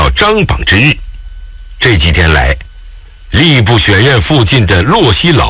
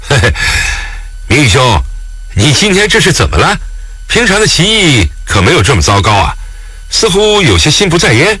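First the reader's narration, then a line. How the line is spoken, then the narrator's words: Laughing scholar. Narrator (Chinese): 他对面的郑姓生员笑道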